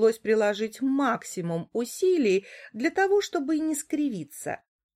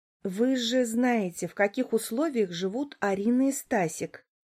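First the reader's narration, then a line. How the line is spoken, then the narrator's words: Quiet. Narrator (Russian): проговорила я тихо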